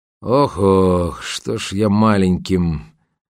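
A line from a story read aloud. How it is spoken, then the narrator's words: Grumbling. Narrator (Russian): проворчал Кречет, но не закончил свое любимое присловие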